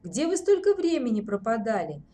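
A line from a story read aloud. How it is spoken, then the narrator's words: Gloomy question. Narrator (Russian): мрачно поинтересовался Ворожцов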